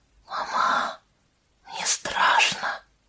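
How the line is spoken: Child's whisper. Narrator (Russian): прошептал мальчик

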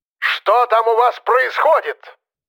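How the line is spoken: Yelling. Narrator (Russian): орал

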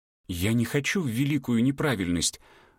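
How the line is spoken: Breathed out. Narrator (Russian): выдохнула она

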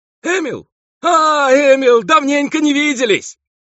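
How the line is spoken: Loud yell. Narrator (Russian): завопил глухой братец

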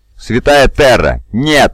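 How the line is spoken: Wailing. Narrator (Russian): завопил Гуртада

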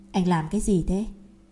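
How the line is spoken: Soft, half-amused scolding. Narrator (Vietnamese): Đường Nhật Khanh vừa tức vừa buồn cười, khẽ trách cứ

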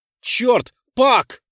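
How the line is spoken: Astonished near-shout. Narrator (Russian): Чуть ли не прокричал я от изумления

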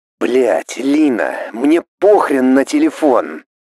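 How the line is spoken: Irritated impatient hiss. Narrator (Russian): С недовольством прошипел Варл, будто моя медлительность отвлекла его от важных дел

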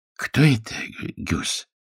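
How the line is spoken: Whispered. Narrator (Russian): прошептал Харли

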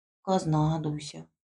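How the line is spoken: Barely audible agreement. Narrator (Russian): соглашалась чуть слышно та

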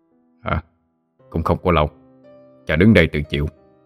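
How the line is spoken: Low hoarse, smiling. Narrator (Vietnamese): Long Bò Cạp nhẹ mỉm cười, nói với giọng trầm khàn

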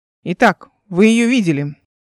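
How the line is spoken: Stern question. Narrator (Russian): Задал он вопрос строгим тоном

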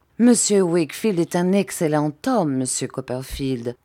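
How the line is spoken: Plain. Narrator (French): dit Uriah

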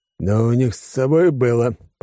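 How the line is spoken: Muttering. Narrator (Russian): пробурчал Алекс

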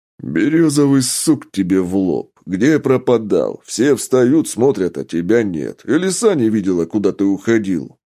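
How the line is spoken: Displeased deep voice. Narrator (Russian): щука недовольно пробасил

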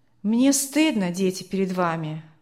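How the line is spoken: Father sighing. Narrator (Russian): вздохнул отец

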